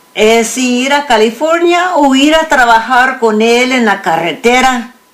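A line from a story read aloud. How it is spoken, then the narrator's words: Thinking aloud. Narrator (Spanish): León pensó en voz alta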